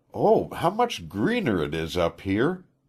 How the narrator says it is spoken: she exclaimed at last, her eyes bright with excitement

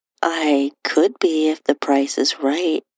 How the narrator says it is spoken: my husband replied

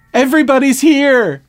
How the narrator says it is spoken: Morgan yelled

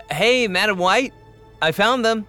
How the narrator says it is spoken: Loon called out

